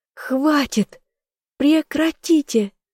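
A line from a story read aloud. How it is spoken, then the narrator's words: Screaming at top volume. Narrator (Russian): закричала во все горло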